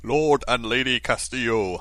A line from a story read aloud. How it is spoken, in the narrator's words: bellowed the doorman